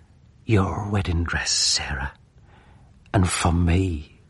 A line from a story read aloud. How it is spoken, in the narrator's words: whispered in her rosy ear